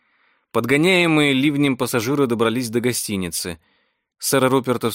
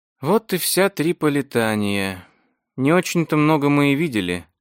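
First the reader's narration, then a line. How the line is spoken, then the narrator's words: Sad. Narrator (Russian): грустно заметила Виктория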